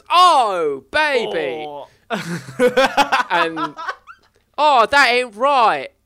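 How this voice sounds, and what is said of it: Cockney accent impression of a character. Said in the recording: “You don't quite do his accent right. He's not that Cockney. ... He's kind of Cockney. ... our shitty Mike Myers impressions”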